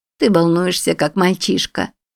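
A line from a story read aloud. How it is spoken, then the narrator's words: Yawning. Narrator (Russian): сказала она, зевая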